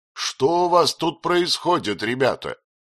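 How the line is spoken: Loud question. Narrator (Russian): спросил он громко

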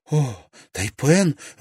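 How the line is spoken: Beaming exclamation. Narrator (Russian): воскликнула Тесс, одаряя его лучезарной улыбкой

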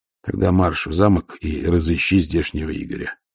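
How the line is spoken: Calm. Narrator (Russian): спокойно сказал Ваймс

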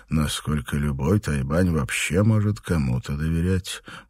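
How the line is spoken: Gloomy thought. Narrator (Russian): мрачно подумал Данрос

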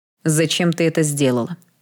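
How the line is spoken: Harsh question. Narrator (Russian): жестким тоном спросил Эштон

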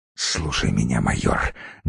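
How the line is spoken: Feverish whisper. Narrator (Russian): горячечно прошептал он

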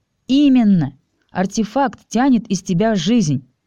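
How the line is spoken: Overly cheerful. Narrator (Russian): как-то излишне радостно сказала Алиса

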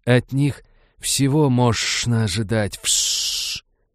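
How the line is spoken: Furious hissing. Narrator (Russian): Ксеносы снова принялись яростно шипеть между собой

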